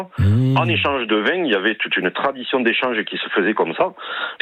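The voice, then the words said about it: Slight southwestern French accent. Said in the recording (French): “vous avez un léger accent et vous va très très bien ... ça, c'est l'accent du sud-ouest”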